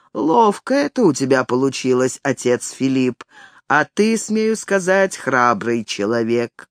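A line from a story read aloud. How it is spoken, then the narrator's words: Deep bass voice. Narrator (Russian): черномазый Отто пробасил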